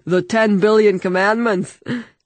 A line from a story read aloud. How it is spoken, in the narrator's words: Terhir laughed